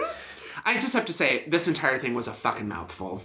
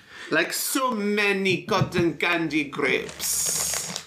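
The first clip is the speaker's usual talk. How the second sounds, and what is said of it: Put-on German accent. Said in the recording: “That's your German accent”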